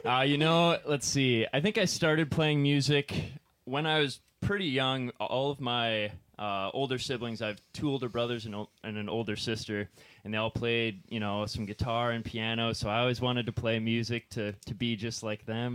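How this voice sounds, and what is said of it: Slightly out of breath. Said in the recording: “I'm a little out of breath... Keyboard players out of breath from playing keyboards.”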